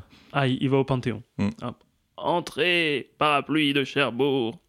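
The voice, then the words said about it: Imitates another person's voice. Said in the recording (French): “mon imitation de Malraux”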